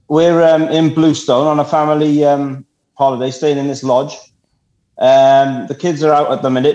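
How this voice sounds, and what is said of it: South Welsh accent. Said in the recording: “what the heck kind of accent is that? ... speak Welsh, having heard this accent”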